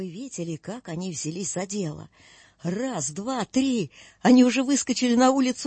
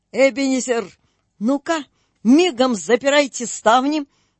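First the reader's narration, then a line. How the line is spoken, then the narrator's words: Shouted. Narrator (Russian): крикнул он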